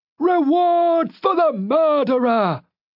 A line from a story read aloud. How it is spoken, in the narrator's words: He snarled at me